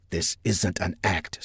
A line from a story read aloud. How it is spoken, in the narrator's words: Saffinger whispered